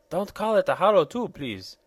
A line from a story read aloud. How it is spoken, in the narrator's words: exclaimed the peculiar person in an irritated tone of voice